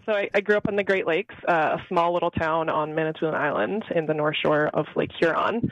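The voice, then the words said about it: Slight Canadian accent. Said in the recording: “some slight accent that everyone here makes fun of me for, I'm actually Canadian”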